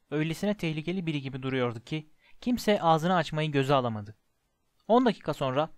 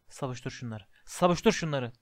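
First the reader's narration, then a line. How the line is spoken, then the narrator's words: Murmuring. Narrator (Turkish): diye mırıldanıyordu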